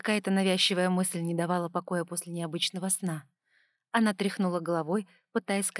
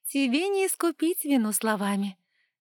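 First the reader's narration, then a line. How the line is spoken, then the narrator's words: Girl laughing. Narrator (Russian): рассмеялась девушка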